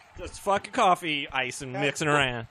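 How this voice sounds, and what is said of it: Imitates another person's voice. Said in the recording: “do you want to hear my impression of John? ... Gruden?”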